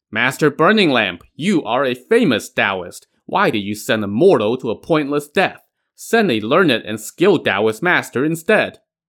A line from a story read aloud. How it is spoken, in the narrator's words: Yao Bin shouted